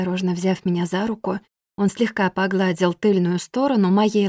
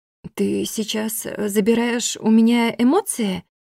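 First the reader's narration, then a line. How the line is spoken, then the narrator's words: Strained forced words. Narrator (Russian): выдавила из себя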